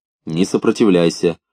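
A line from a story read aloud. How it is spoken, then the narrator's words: Calm interjection. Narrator (Russian): спокойно вмешалась Силантка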